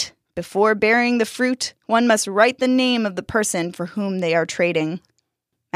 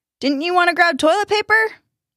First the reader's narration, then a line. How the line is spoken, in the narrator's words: Max's dad called out